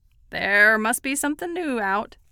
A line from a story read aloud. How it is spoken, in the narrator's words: the vendor said gloomily